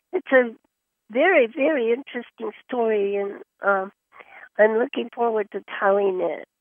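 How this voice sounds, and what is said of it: Voice still sounds ill. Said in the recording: “I'm better now. You can hear it in my voice still”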